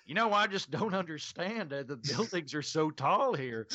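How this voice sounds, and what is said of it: Exaggerated Oklahoma accent. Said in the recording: “gotten contact with my Okie roots when I'm on stage, where I lean into my accent heavier than I do now when I'm talking to people in regular conversation”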